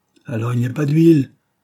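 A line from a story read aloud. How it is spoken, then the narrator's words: Shouting. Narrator (French): cria-t-il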